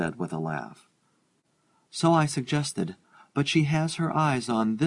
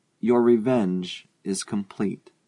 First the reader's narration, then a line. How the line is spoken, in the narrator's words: he said slowly